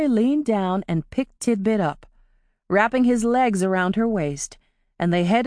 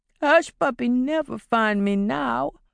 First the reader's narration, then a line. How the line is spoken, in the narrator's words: Tidbit wailed miserably